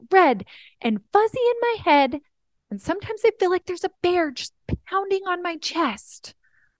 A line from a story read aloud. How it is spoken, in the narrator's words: he screams